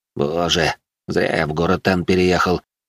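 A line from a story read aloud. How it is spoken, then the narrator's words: Sighing. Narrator (Russian): Вздохнул бедолага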